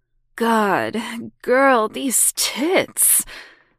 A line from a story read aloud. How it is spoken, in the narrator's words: said Vanessa with a laugh